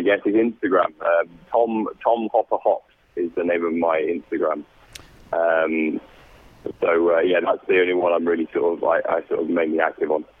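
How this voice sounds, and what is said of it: British accent. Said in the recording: “you hear the British accent, right?”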